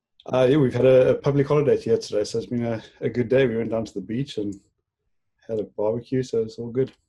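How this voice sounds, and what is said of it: South African accent. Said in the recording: “Are you in South Africa? Is that your accent? ... South African accent.”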